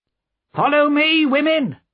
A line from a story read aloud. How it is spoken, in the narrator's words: cried Madame Defarge